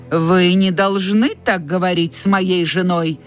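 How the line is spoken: Plain. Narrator (Russian): сказал он

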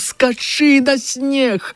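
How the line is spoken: Shouting again. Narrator (Belarusian): ён яшчэ крыкнуў

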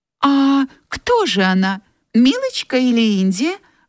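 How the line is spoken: Agitated question. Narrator (Russian): Взволнованно спросила Мелани

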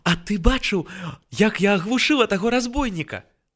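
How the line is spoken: Excited exclamation. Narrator (Belarusian): З захапленнем усклікнула Бася

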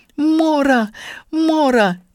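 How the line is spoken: Screamed. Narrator (Russian): закричала

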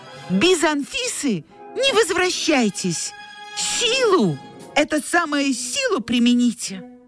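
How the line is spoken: Breathless shout. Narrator (Russian): Тося ... запыхавшись ... крикнула вдогонку Дементьеву

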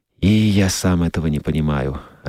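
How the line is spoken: Sad. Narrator (Russian): ответил Скотт, грустно покачав головой

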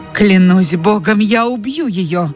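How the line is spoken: Angry exclamation. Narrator (Russian): воскликнул Ретт, и лицо его потемнело от гнева

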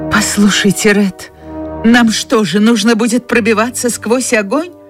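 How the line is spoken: Trembling question. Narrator (Russian): Дрожащим голосом спросила Скарлетт

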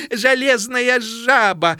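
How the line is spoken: Mocking guffaw. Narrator (Belarusian): зарагатала самая насмешливая

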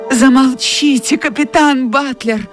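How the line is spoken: Pleading. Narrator (Russian): взмолилась Мелани

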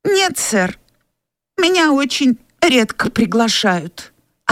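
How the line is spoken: Tearful answer. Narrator (Russian): ответил Уэйд сквозь слезы

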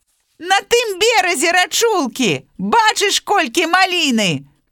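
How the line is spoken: Hare shouting. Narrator (Belarusian): Крычыць зайчык мядзведзю

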